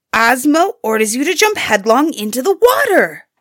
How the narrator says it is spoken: Suyatar fiercely screamed

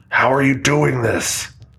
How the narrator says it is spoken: the entity bellowed through Kate's ragged voice

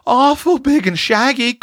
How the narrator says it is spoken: quavered Roxy

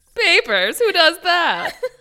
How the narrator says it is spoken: The receptionist laughed along with Jane

